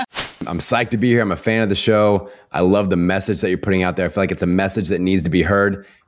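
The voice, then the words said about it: Attractive, sexy-sounding voice. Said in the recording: “sexy voice, because you have a sexy voice.”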